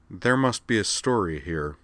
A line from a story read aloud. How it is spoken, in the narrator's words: said Jury dryly